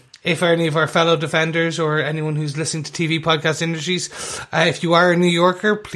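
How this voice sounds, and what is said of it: Usual voice. Nothing is said of it.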